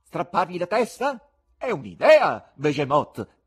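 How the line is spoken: Shouted. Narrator (Italian): gridò

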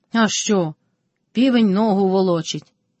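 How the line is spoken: Calm. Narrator (Ukrainian): спокійно обізвався Карпо

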